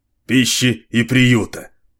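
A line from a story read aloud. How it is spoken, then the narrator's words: Impatient grumble, priest. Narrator (Russian): нетерпеливо проворчал священник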